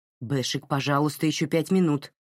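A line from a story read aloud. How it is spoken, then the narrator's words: Irritated. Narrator (Russian): раздраженно ответила Марин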